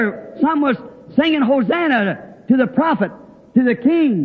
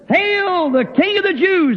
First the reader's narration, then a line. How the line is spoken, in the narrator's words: Others saying one thing and some hollering